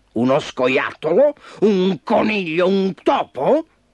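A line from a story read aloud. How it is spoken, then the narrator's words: Fierce roar. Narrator (Italian): ruggì ferocemente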